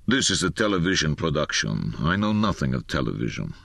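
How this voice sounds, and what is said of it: Low voice, thick Russian accent. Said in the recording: “in a low voice, thick with an accent,”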